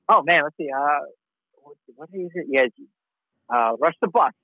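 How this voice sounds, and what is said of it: Heavy accent. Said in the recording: “heavy accent.”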